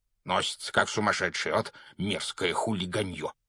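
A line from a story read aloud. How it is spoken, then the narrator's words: Irritated grumble. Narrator (Russian): проворчал он, когда их обогнал мопед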